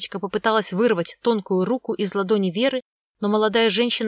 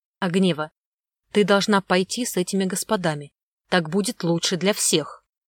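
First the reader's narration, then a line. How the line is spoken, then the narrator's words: Icy commanding tone. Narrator (Russian): Приказным ледяным тоном заявила Вера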